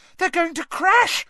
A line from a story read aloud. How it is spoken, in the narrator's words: shrieked Hermione